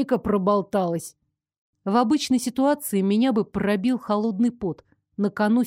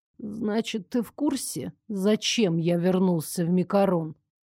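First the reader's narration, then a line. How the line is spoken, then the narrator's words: Slow drawl. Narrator (Russian): медленно протянул Элмер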